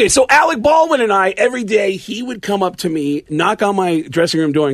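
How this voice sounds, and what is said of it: Usual voice. Nothing is said of it.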